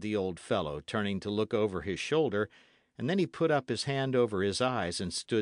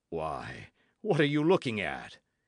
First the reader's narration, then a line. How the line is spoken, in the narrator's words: asked Bennet with a chuckle